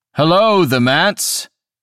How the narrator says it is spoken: he called out

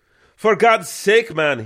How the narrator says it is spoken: he screamed

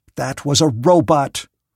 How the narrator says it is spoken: said Prang, angrily

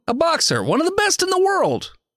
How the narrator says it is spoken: he says excitedly

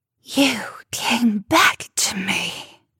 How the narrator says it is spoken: she hissed

